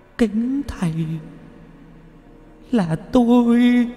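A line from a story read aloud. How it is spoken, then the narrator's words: Weeping. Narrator (Vietnamese): Bà ấy khóc lóc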